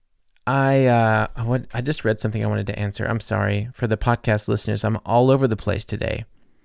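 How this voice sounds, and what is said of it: American accent. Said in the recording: “you do sound American ... That's why I sound American”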